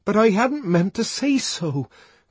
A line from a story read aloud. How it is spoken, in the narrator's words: cried the savage, clasping his hands in a kind of agony